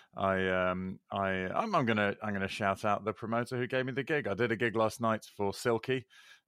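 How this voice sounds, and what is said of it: Crackly, slightly hoarse voice. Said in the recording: “my voice is a little crackly”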